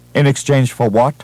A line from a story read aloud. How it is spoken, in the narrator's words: asked curtly